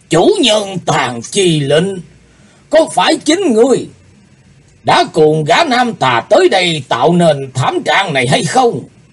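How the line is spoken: Old man shouting fiercely. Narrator (Vietnamese): Lão ta quát lên

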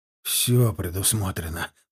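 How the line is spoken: Relieved mutter. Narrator (Russian): с облегчением пробормотал Вербов

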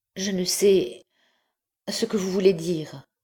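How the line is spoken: Stammering. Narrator (French): répondit-elle en balbutiant

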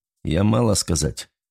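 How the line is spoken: Dry, through clenched teeth. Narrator (Russian): сухо процедил Николай

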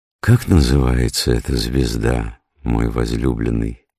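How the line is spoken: Plain. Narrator (Russian): спросила она

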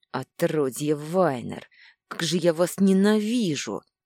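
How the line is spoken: Frenzied furious growl. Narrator (Russian): С исступленной злостью прорычал он

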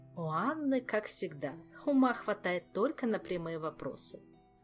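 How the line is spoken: Giggling. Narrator (Russian): хихикнула Камилла

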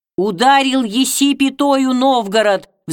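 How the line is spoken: Angry menacing roar. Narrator (Russian): взревели гневные и грозные голоса

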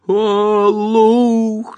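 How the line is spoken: Yelling. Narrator (Russian): завопил Гарри

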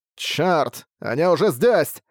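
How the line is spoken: Fairly loud muttering. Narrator (Russian): Довольно громко пробормотал

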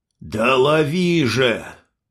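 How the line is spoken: Old man's angry bark. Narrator (Russian): сердито рявкнул старик

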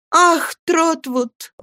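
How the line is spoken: Tearful exclamation. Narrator (Russian): воскликнула Агнеса, закрывая руками лицо, по которому струились слезы

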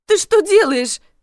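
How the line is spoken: Yelled. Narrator (Russian): завопила я

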